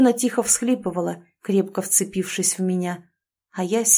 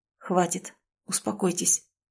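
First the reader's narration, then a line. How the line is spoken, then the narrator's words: Mumbling. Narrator (Russian): Забормотал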